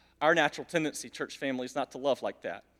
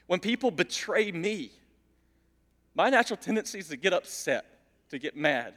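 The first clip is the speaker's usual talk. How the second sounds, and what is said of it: Emotional voice. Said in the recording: “getting emotional”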